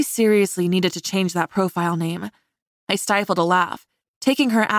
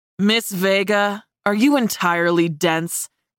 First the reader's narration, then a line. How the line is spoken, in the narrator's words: he snarled